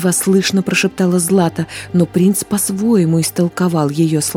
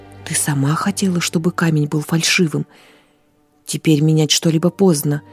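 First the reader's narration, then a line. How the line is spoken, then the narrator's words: Quiet, barely hidden irritation. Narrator (Russian): тихо проговорил он, не в силах скрыть раздражение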